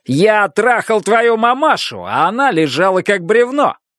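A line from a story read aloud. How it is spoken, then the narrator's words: Big man, incomprehensible shout. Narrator (Russian): Здоровенный маньяк в желтой футболке прокричал что-то непонятное, но похожее на крик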